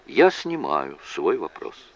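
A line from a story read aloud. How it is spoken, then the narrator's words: Calm. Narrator (Russian): Джейк спокойно сказал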